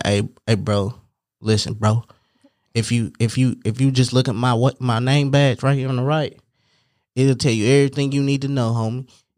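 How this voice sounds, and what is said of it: Put-on Oakland accent. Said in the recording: “You do your best Oakland accent... I did not know you could do accents like this... this week is Oakland”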